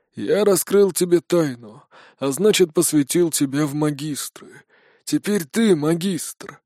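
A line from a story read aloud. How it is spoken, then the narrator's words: Hoarse, sad. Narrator (Russian): прохрипела Ахинда, грустно улыбнувшись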